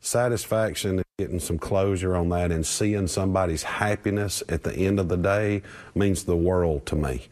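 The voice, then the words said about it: Georgia Southern American accent. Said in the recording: “made better by a Georgia accent”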